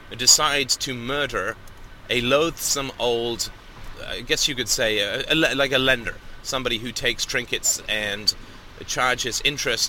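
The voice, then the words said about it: Speaks with a noticeable accent. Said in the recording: “I always get that confused because of my accent”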